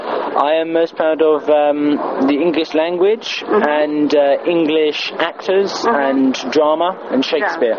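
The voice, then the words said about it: Well-spoken posh English accent. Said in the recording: “your English accent ... I suppose I'm quite well spoken. I pronounce my T's and my S's ... it is similar to the Queen. Because the Queen uses very posh accent”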